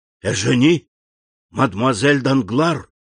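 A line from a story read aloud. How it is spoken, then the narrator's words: Whisper, horror turning to astonishment. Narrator (Russian): прошептал Андреа, переходя от ужаса к изумлению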